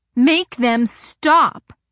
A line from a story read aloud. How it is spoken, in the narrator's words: couldn't shroud the agony, shouted